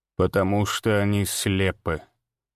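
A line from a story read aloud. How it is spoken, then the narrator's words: Calm. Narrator (Russian): спокойно ответил незнакомец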